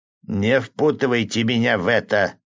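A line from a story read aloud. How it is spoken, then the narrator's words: Grumbling. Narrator (Russian): проворчал мясник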